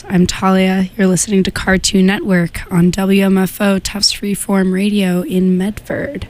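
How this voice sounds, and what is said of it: Hoarse, sick-sounding voice. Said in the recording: “my voice is hoarse ... I'm sick. As you can tell”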